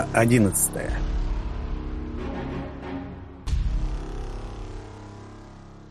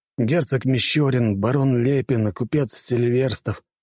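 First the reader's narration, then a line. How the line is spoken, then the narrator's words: Calm listing. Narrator (Russian): Юнусов спокойно перечислял фамилии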